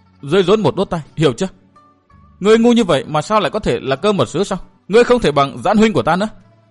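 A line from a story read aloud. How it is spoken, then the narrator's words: Flustered, strained woman's voice. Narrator (Vietnamese): Mặt Tuyết Lan đỏ như gấc chín, nàng gằn giọng nói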